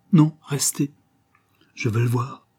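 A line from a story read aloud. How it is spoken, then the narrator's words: Broken voice, near tears. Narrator (French): fit d'une voix brisée, comme un enfant qui va pleurer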